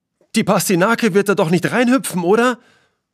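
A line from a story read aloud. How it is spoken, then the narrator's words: Worried call. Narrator (German): ruft eine besorgte Stimme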